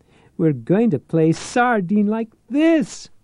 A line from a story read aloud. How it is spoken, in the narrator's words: she cried